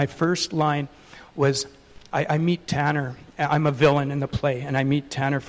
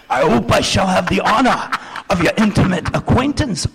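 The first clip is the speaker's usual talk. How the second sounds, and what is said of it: Put-on British accent. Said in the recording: “with my British accent.”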